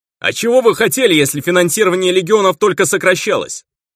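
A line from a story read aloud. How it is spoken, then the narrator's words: Shout. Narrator (Russian): выкрикнул кто-то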